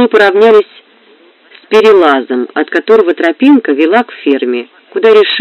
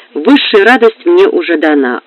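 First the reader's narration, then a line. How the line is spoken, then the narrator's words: Plain. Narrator (Russian): ответил он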